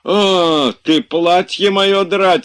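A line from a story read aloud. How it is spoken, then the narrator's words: Shouting. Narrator (Russian): закричал Захар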